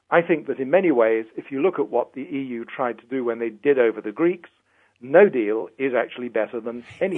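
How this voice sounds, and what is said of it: British Tory-sounding accent. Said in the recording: “everybody listens to your accent and says, there goes a British Tory”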